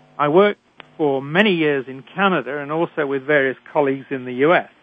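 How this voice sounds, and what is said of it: British accent. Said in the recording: “I was trained in Britain, as I'm sure you can tell from my accent.”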